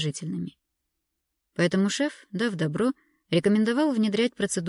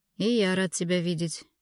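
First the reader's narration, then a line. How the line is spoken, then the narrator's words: Sad. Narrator (Russian): грустно ответил шеф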